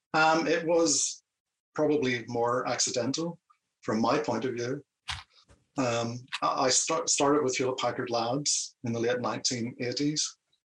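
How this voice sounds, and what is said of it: Noticeable non-US accent. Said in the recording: “given the accent, was that in the US or in the UK?”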